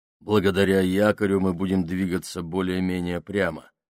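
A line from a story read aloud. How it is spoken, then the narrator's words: Plain. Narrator (Russian): сказал он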